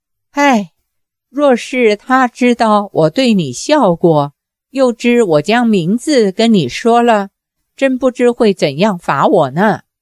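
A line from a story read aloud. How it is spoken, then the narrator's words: Sighing. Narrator (Chinese): 公孙绿萼叹道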